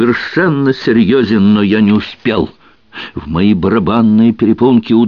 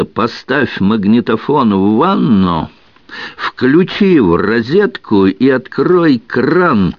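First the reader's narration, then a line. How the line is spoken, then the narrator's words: Nervous laugh. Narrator (Russian): Алиса нервно рассмеялась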